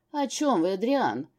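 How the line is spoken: Wary question. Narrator (Russian): настороженным тоном поинтересовался его Величество

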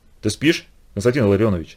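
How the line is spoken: Quiet call. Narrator (Russian): тихо окликнул он Чумакова

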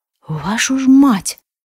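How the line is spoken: Whispered curse. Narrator (Russian): шепотом выругался Арам

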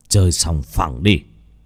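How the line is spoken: Cold. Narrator (Vietnamese): Bác Cổ lạnh lùng

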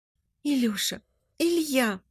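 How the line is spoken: Sobbing. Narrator (Russian): всхлипывает Тая

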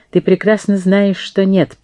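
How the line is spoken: Dry interruption. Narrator (Russian): прервал ее Абу с сухим тоном

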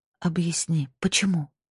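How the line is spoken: Voice breaking into tragic whisper. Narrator (Russian): Мой голос сорвался на трагический шепот

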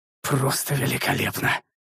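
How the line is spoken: Said through gritted teeth. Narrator (Russian): процедил я

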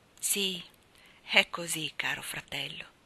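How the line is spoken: Plain. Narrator (Italian): disse Martina

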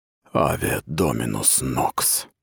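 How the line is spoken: Whisper. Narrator (Russian): прошептал Сахал

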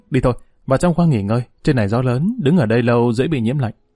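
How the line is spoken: Sighing, hurried. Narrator (Vietnamese): Dương Lăng thở dài, chợt thấy gió nổi lên, vội vàng nói

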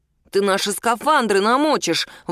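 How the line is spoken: Grumbling. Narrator (Russian): ворчал Мишун

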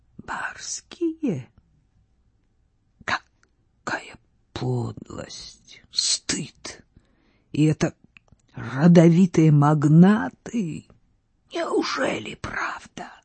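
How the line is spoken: Quiet. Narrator (Russian): Она тихо произнесла

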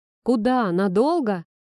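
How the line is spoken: Joyful blurt. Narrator (Russian): радостно выпалил Никита

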